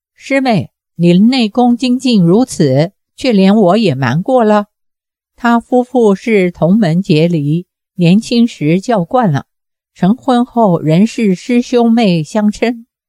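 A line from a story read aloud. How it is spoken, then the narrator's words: Laughing. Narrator (Chinese): 岳不群笑道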